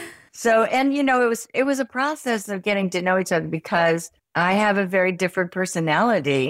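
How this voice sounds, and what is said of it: Usual voice. Nothing is said of it.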